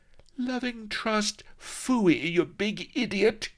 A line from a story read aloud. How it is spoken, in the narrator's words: cried Vanity